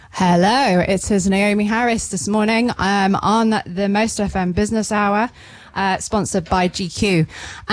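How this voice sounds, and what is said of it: Smiling, cheerful voice. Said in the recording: “I can hear the smile in your voice”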